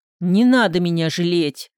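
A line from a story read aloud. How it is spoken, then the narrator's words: Snapping. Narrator (Russian): огрызнулся Григорий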